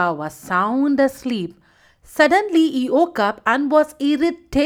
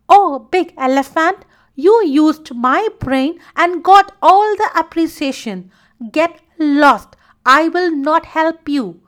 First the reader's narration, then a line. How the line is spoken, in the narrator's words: screamed Uka